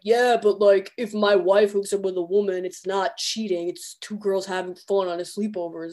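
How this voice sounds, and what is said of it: Mock straight man voice. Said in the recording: “That's my straight man accent.”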